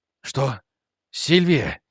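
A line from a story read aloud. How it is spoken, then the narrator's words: Breathless exhale. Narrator (Russian): выдохнул Рик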